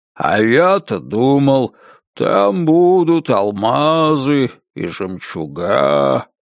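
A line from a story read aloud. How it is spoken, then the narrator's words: Drawling. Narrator (Russian): протянул он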